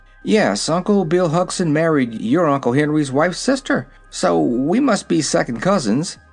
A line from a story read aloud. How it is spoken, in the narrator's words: said the boy in an amused tone